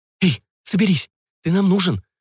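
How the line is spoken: Babbling. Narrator (Russian): залепетала Валерий

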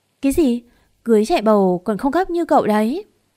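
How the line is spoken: Shout. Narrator (Vietnamese): cô nàng hét lên

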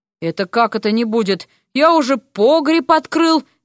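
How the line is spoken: Loud reply from doorway. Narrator (Russian): не менее громко ответили ему от дверей

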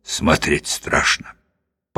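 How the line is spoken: Muttering. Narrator (Russian): Клетчатый бормочет

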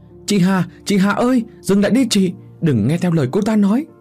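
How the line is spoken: Loud shout while running. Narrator (Vietnamese): Vừa chạy tôi vừa thét to để cho bố mẹ nghe rõ

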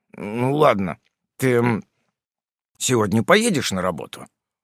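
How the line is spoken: Mumbling. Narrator (Russian): промямлил Фрем

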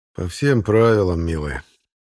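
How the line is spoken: Lazy drawl. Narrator (Russian): лениво произнес я

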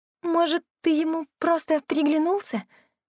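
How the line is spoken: Timid suggestion. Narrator (Russian): робко предположила Кира

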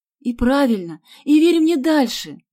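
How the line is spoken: Shouted. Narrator (Russian): закричала Галя

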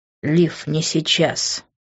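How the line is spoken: Through gritted teeth. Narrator (Russian): процедил он, скрипя зубами

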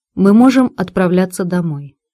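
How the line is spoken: Even tone. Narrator (Russian): ровным тоном произнесла

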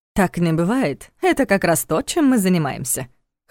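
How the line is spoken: Wry snort. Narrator (Russian): хмыкнул Войтах

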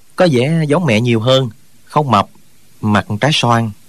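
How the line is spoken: Smiling. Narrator (Vietnamese): Trương Thúy Sơn mỉm cười nói

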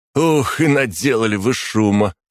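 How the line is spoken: Chuckling. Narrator (Russian): хохотнул второй

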